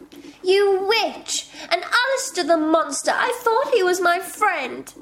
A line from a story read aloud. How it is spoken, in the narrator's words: cried Eliza